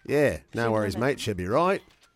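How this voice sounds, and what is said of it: Put-on Australian accent. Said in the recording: “I've tested the accent a couple times on air ... perfect her Aussie accent”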